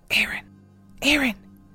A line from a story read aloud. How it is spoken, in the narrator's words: She whispered